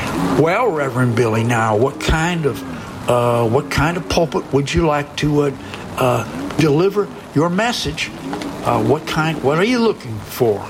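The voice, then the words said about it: Attempted Tennessee accent. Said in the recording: “I don't know if that's a Tennessee accent or not.”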